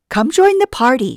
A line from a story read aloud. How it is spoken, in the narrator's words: she said